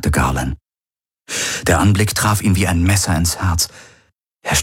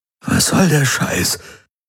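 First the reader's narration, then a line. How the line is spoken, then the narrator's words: Croaking. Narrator (German): krächzte Garland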